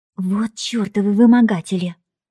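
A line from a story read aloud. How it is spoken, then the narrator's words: Angry hiss. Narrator (Russian): прошипела Женька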